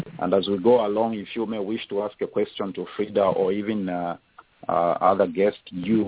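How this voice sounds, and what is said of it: Zambian accent. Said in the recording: “my beautiful Zambian accent.”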